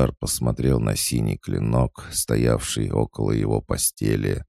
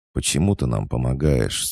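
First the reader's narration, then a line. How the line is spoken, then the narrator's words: Plain. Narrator (Russian): спросил Хаджар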